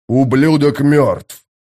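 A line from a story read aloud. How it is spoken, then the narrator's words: Growling. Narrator (Russian): прорычал Боден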